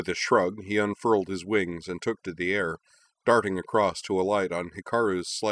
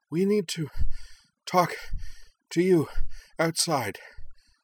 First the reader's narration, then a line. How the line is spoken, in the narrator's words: panted